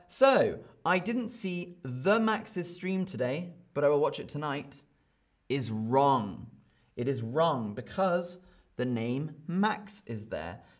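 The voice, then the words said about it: British accent. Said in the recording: “I speak with a British accent.”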